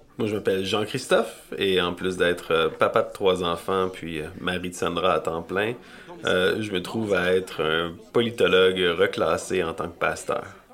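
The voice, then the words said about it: Montreal French accent. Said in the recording (French): “mon français impeccable de Montréal”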